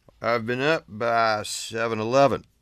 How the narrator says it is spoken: replied Andy, slurring his words

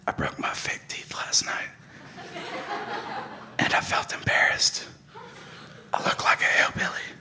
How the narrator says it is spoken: I whispered in ear

